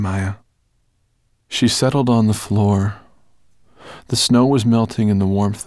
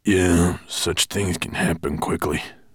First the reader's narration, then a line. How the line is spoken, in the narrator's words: murmured Gravelbeard